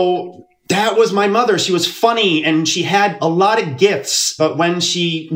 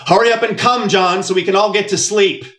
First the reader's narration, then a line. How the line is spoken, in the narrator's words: my mother shouted through the thin wall